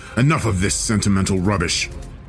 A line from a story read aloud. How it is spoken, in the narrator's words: he snarled